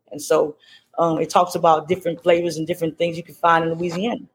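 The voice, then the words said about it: Louisiana accent. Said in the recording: “You haven't lost that Louisiana accent either. ... I hear it coming through.”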